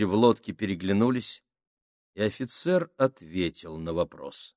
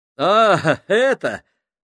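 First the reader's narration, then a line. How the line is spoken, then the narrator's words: Laughing. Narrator (Russian): рассмеялся Джордж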